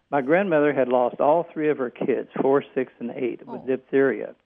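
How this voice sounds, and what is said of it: Accent with a lovely lilt. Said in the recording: “I like your accent, by the way. ... You have a lovely lilt to your voice.”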